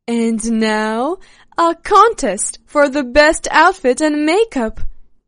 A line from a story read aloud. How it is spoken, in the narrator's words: Regina shouted